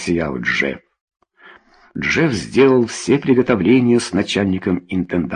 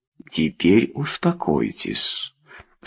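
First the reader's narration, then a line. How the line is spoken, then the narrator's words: Gentle, affectionate. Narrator (Russian): сказал ласково Джефф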